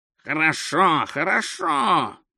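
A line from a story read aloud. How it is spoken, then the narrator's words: Dejected mumble. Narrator (Russian): пробормотал заметно сникший продавец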